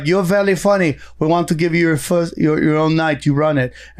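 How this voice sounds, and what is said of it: Good put-on French accent. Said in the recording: “That was a good French accent.”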